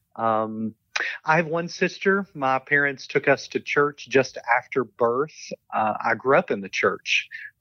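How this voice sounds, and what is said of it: Southern American accent. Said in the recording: “I do not have an English accent, but quite a Southern accent.”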